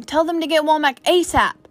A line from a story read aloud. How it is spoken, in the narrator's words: he started shouting